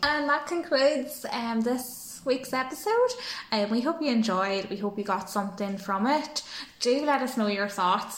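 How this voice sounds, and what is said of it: Irish Donegal accent. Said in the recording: “if you can understand the Donegal accent.”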